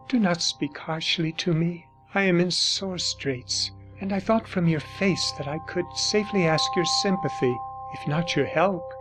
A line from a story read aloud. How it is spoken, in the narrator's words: said in a low murmuring voice